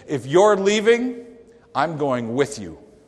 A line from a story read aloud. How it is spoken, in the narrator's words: the husband firmly said